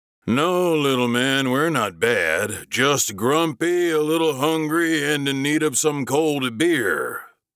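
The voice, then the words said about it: Jovial husky man's voice. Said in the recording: “said jovially in a husky voice.”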